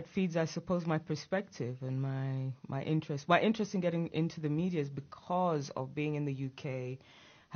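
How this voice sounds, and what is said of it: Mixed Ugandan and English accent. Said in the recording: “born in Uganda ... educated in England from the age of 12 ... the mixed up accent that I am left with”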